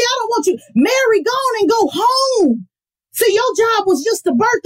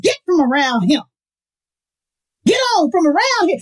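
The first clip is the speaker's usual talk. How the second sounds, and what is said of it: Put-on Southern accent. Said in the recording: “like I do in my southern voice”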